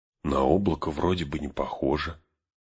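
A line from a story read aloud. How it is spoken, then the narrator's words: Whispered. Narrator (Russian): шепотом сказал Арагорну Сэм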